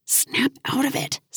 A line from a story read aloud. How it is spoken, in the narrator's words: Simon whispered